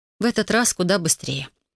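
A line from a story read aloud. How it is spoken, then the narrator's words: Thoughtful. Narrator (Russian): задумчиво произнесла Кассандра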